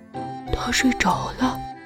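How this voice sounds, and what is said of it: Quiet, whispered line. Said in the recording (Chinese): “小声说”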